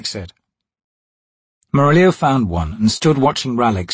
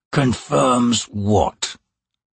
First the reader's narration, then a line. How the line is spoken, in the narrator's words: the assassin asked in a dangerous tone